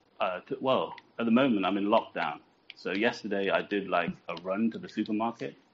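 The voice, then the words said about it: Classy British accent. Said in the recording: “your British accent. You sound way too classy.”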